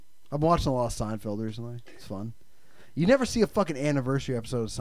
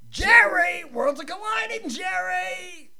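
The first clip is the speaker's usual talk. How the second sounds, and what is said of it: Imitates a sitcom character's voice. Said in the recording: “I can do a good George Costanza. ... But I think that more sounds like Leo.”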